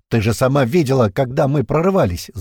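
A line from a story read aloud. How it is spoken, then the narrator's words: Angry reply. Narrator (Russian): зло ответил ей Пьер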